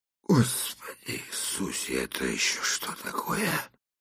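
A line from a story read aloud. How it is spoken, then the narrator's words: Breathless, shaken. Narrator (Russian): выдохнул отец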